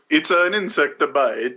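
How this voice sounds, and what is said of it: Imitating Asia Argento's accent. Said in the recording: “This is where Asia Argento's accent comes through the strongest.”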